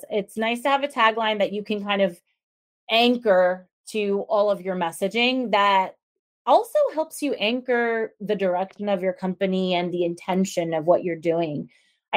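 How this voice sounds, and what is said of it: Southern American accent. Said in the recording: “now I have a Southern accent”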